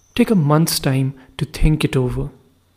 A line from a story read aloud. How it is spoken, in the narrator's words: said the Tsar